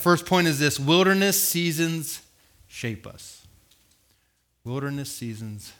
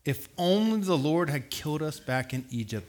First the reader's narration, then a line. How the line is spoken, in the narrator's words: they moaned